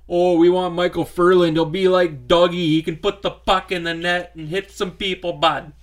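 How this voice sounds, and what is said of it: Exaggerated Canadian hoser accent. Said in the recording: “That's an interesting uh, accent. ... That's my hoser accent.”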